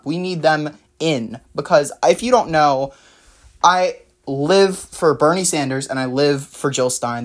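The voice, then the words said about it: Excited, energetic delivery. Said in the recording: “I sound really excited”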